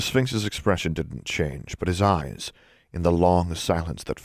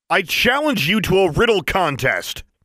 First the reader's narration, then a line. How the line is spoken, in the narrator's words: Alexandra said in a loud, carrying voice